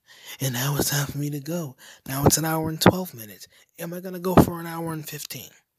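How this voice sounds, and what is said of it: Low, quiet, tired voice. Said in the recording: “my voice is low because I don't feel like yelling because I've been up since 4 a.m.”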